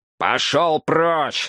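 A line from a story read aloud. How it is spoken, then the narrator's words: Barked. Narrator (Russian): рявкнул Донован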